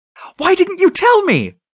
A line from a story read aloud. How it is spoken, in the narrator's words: cried Danny